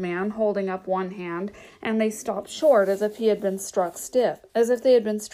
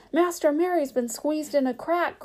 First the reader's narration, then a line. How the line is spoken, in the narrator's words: cried Sam